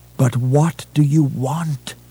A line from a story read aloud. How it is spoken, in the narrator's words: He begged